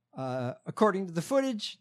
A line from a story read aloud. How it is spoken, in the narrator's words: the cop yelled at Peischer